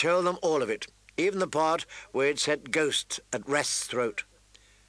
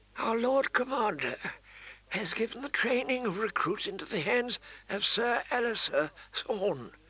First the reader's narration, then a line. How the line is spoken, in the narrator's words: the maester said gently